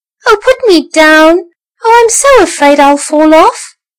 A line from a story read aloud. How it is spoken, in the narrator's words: cried the tiny mouse